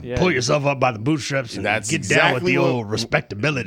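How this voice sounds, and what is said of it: Bill Cosby impression. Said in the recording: “That's a very good impression.”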